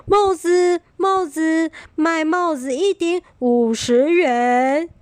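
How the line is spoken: Calling out. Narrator (Chinese): 一边喊着

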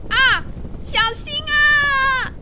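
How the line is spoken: Scream. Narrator (Chinese): 企鹅终于尖叫出声了

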